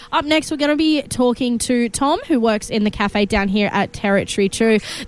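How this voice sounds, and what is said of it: Funny-sounding, altered voice. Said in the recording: “if my voice sounds a little funny. There are helium balloons everywhere and I cannot resist.”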